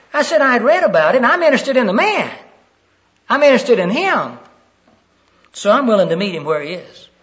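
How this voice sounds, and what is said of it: Southern American accent. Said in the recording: “you can tell that I'm from Maine by my accent ... your southern accent”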